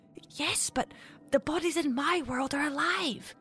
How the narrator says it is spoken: Mari whispered back to the torch-wielding infant

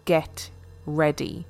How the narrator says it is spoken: with a menacing smile

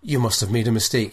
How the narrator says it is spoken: said Anatoly a little too quickly

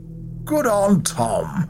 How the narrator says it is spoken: Ackley chuckled

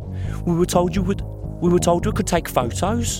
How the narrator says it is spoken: Claire cried

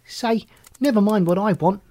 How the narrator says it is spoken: he retorted angrily

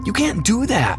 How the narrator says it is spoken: cried

